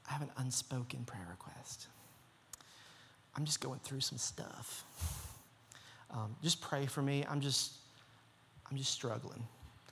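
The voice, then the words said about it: Soft, gentle put-on Southern accent. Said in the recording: “they always talk with a real southern accent ... It's just a real soft, gentle”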